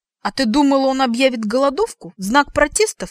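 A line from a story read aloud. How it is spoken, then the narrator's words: Snorting. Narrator (Russian): фыркнула я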